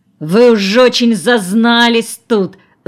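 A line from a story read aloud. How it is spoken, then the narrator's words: Struggling growl. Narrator (Russian): зарычал он, вырываясь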